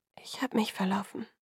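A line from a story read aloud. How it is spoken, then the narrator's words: Whispered. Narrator (German): flüsterte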